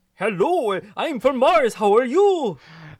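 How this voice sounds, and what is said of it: Silly Martian alien voice. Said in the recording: “do a Martian accent for me ... like wonky alien dude ... he's like an alien Kermit”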